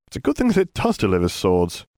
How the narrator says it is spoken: Harry replied with a chuckle

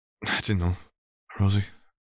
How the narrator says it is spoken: Rosa sighed

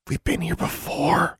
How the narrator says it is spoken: she whispered to Anna

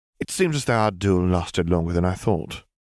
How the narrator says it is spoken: Rosalina sighed

